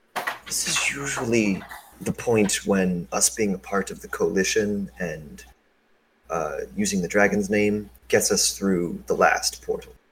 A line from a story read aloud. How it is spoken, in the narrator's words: L will whisper in his mother's ear